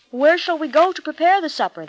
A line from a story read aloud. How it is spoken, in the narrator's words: they asked